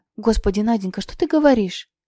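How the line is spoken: Slightly frightened. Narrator (Russian): Немного испуганно произнес Савелий Ефремович

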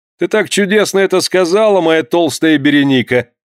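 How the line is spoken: Answering, laughing louder. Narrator (Russian): ответил еще громче смеясь Кафариэлла

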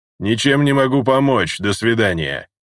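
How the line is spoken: Snort. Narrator (Russian): хмыкнул мой собеседник

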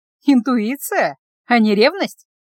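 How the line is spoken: Mocking. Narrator (Russian): насмешливо бросила

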